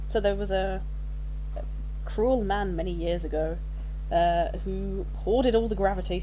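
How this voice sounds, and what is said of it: Speaks with an accent. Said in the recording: “I'm just using an accent without even trying.”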